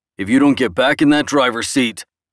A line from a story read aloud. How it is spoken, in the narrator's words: boomed